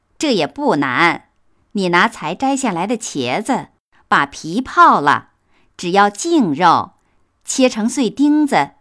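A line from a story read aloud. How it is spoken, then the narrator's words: Laughing. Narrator (Chinese): 凤姐笑道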